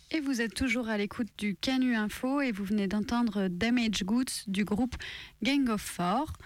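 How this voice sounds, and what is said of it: English-accented pronunciation of English names. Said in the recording (French): “Vous avez un joli accent anglais”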